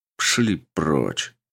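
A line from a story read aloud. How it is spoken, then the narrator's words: Displeased voice. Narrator (Russian): недовольным голосом сказал он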